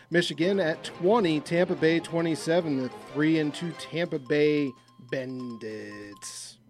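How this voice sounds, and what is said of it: Announcer-style radio voice. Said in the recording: “I love his radio voice.”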